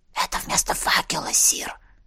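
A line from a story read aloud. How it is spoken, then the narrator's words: Whispered explanation. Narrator (Russian): шепотом пояснил светлячок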